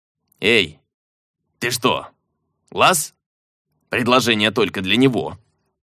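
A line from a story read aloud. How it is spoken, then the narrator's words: Booming drone. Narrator (Russian): Орк прогудев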